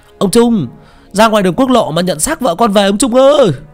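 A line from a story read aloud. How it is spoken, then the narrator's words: Loud wailing shout. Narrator (Vietnamese): có ai ấy gào to lắm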